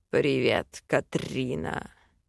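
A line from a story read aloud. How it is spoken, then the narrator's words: Demon's hoarse growl. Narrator (Russian): С хрипотцой рыкнул демон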